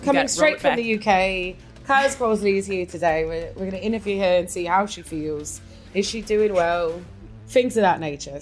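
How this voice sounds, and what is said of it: Speaking in a special accent. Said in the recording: “do it in your accent”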